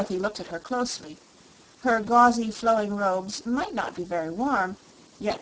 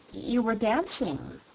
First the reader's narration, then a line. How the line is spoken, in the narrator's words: remarked Dorothy in a puzzled tone of voice